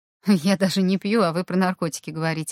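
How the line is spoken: Laughing. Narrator (Russian): рассмеялся Руслан

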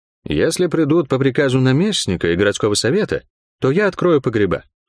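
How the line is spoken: Calm statement. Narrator (Russian): спокойно заявила Молс

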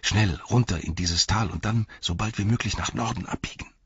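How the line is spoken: Whispered. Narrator (German): flüsterte Frodo

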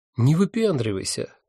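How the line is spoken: Calm advice. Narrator (Russian): спокойно посоветовал один из них

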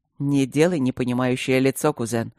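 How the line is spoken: Smirking snort. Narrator (Russian): хмыкнул блакориец

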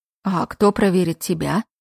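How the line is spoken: Grumbling. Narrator (Russian): проворчал Джейкоб

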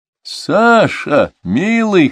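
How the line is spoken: Chuckling. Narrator (Russian): хохотнул великий князь

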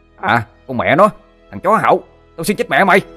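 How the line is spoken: Angry shouting. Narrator (Vietnamese): tiếng Thằng Sinh quát lên

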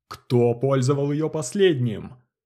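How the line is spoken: Growled. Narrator (Russian): рыкнул Чоп

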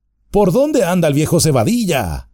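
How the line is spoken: Group exclaiming. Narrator (Spanish): exclamaron

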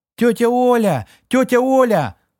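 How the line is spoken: Girl shouting. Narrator (Russian): закричала девочка

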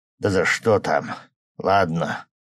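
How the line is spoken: Weary sighing coach. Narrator (Russian): вздохнул наш, заметно уставший от всей этой нервотрепки тренер

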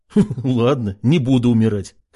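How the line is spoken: Chuckling. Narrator (Russian): хохотнул Артем

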